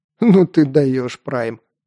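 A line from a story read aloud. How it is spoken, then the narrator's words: Laughing speech. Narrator (Russian): рассмеялся Марк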